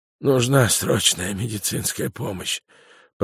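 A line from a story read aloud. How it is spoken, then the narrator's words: Whisper. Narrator (Russian): прошептал агент Петерсон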